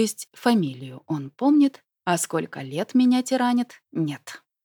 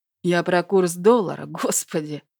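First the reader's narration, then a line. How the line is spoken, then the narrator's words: Contemptuous snort. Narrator (Russian): Фыркнул он с пренебрежением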